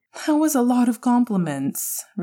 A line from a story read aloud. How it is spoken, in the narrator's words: Remus laughed